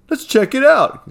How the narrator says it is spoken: exclaimed Griffin excitedly

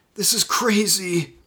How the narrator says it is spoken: Jason muttered

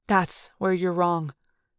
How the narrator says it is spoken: Eric said softly

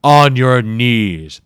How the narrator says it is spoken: the Jakayo thundered

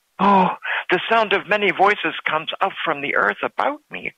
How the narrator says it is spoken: exclaimed the young mother

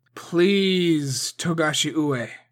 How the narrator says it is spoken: Masahige said in the strongest voice he could muster

